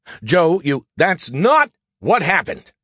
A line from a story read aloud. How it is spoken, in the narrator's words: I shouted